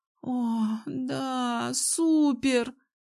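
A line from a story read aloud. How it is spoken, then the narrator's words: Sudden passionate moan. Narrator (Russian): вдруг простонала она и страстно охнула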